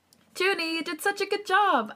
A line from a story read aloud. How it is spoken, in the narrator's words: I smile at Yeonjun excitedly